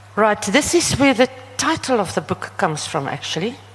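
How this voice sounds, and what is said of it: Namibian English accent. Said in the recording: “I speak Namlish, and my accent is also very...”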